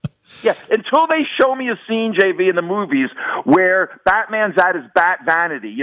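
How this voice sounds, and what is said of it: Usual voice. Nothing is said of it.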